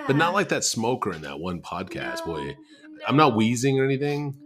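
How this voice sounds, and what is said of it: Slightly sick, chesty voice. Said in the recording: “Do I sound sick? ... You sound a little sick. ... I'm a little chesty.”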